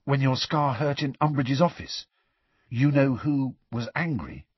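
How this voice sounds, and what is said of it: Hushed, quiet voice. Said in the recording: “in a hushed voice.”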